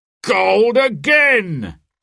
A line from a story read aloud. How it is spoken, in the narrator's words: the sheriff cried